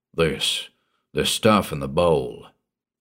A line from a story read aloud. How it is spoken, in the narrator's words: Bostiff rumbled